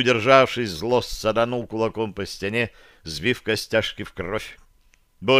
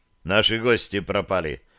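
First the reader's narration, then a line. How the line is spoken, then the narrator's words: Dry. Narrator (Russian): сухо проговорил я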